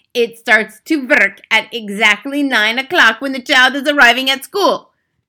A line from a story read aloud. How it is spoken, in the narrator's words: shouted the Grand High Witch triumphantly